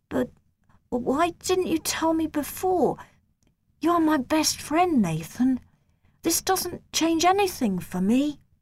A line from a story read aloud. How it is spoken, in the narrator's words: My friend said in a shaky voice